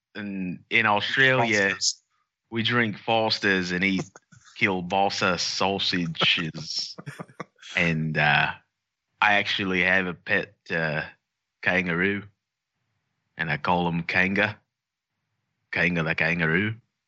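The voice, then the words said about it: Exaggerated put-on Australian accent. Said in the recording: “Do your offensive Aussie accent? ... Oh, Australian accent.”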